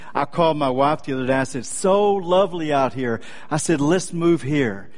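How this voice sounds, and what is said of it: Slight Texan accent. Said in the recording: “I'm a native Texan. Any of you detect a slight accent? I thought you might.”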